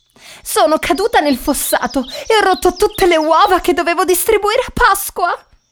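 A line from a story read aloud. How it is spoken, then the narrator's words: Sobbing reply. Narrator (Italian): risponde la poveretta tra i singhiozzi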